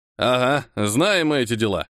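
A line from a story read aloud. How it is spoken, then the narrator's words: Short laugh. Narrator (Russian): хохотнул отец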